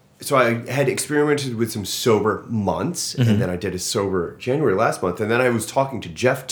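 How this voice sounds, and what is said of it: Usual voice. Nothing is said of it.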